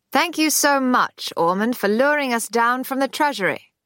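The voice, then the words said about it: High, educated drawling voice. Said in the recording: “in a high, educated drawl”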